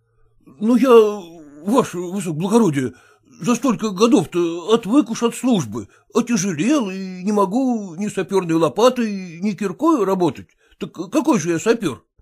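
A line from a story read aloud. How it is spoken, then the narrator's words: Stammering, pleading objection. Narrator (Russian): пробовал, заикаясь, возражать стоявший голым Зваров и умоляюще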